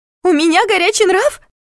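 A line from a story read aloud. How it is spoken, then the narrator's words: Shrill squeal. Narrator (Russian): взвизгнула Виола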